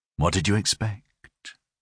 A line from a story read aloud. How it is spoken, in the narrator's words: he murmured